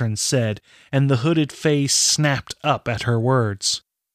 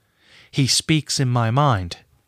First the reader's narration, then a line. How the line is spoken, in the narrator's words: Catrin said